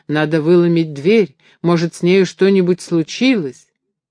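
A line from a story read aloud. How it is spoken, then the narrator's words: Frantic desperate shouting. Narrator (Russian): Граблин рвал на себе волосы и в выступлении кричал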